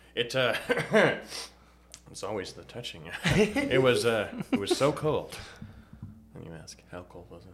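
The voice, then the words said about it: Imitates a classic talk show host. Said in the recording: “My best impression is Johnny Carson ... Original Tonight Show, 60s to 90s?”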